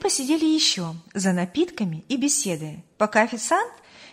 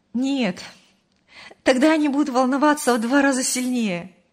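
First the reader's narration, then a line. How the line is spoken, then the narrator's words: Laughing. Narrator (Russian): рассмеялась Мария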